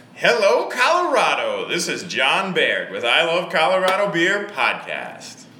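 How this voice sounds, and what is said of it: Game-show announcer voice. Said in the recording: “Why are you talking like that? You don't normally talk like that. ... you sound like the guy on The Price is Right. ... the guy that says, "Come on down! You're the next contestant on The Price is Right!" ... this is my podcast voice.”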